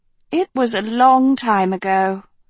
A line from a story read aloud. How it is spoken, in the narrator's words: Lady Gremlane sighed